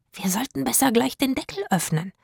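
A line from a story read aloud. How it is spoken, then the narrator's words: Whispered. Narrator (German): flüsterte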